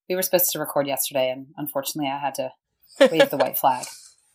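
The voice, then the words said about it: Rough, sick-sounding voice. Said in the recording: “I have a cold. I've had a cold for like 3 days and my voice sounds terrible”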